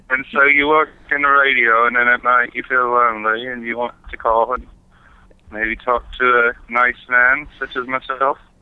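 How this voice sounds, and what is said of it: Unconvincing fake British accent. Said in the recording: “I'm having trouble believing the accent. Your accent doesn't sound very good. ... if I wasn't British, why would I be talking with this accent? ... No, it's not.”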